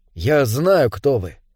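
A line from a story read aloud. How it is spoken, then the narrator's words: Quiet. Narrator (Russian): тихо сказал Дэвид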